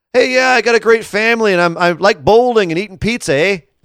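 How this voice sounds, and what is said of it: Imitated voice with Canadian accent. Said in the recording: “i don't know why he's suddenly really canadian but he is canadian ... my kevin owens impression”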